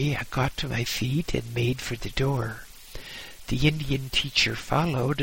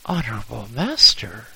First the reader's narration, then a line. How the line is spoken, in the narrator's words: exclaimed